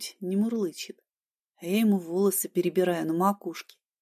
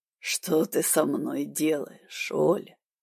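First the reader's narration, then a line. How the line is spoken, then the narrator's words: Hoarse rasp. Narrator (Russian): прохрипел парень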